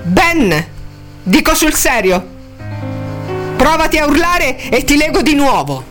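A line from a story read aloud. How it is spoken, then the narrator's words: Shouted warning. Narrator (Italian): gli gridò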